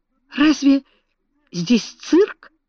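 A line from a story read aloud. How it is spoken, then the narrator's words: Exclamation. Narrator (Russian): воскликнул Цедрик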